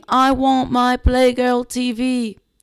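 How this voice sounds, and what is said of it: Badly imitated unidentified accent. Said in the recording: “Very bad impression of, not really sure what type of accent”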